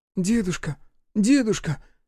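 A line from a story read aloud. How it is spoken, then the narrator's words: Timid child calling. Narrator (Russian): робко позвал мальчишка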